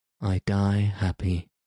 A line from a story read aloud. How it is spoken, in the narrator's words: said he, with a sigh of content